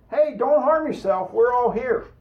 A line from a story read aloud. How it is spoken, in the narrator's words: Paul shouted